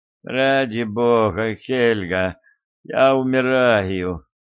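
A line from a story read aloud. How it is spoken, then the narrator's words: Moaning. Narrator (Russian): простонал Арчер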